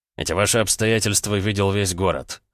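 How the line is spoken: Mocking snort. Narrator (Russian): хмыкнул ранец

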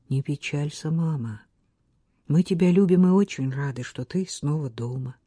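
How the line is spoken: Soft. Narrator (Russian): он тихонько произнес

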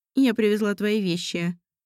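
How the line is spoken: Even tone. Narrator (Russian): ровным тоном ответила Светлана Петровна

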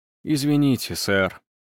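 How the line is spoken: Upset mutter. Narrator (Russian): расстроенно пробормотал Виттелли

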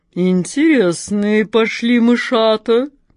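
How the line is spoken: Deep purring cat. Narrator (Russian): басом промурлыкала кошка Мурка

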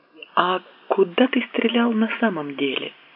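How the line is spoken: Quiet question. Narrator (Russian): тихонько спросила

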